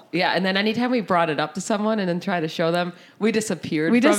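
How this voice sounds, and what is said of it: Raspy voice from a cold. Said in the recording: “I have a little bit of a cold, guys. So sorry that my voice is a little raspy.”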